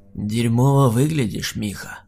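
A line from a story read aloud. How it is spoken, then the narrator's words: Monster's creaky rasp. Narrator (Russian): проскрипел монстр, которого я знал под именем Дэн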